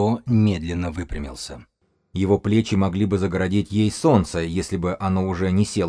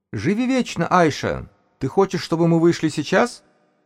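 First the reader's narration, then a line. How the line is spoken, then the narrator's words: Unexpectedly high youthful voice. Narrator (Russian): спросил он неожиданно высоким юношеским голосом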